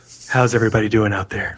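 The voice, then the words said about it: Flat monotone voice. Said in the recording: “speak normal. Don't don't do that, Mister Monotone.”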